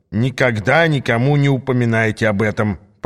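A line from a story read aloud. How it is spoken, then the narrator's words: Grumbling. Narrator (Russian): проворчал Ас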